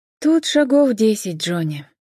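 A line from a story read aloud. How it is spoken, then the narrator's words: Sighing. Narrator (Russian): вздохнула Джен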